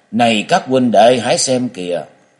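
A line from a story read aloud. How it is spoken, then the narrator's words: Loud old man. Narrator (Vietnamese): Một người mặt xanh già nua nhất ở trong đám to tiếng nói lên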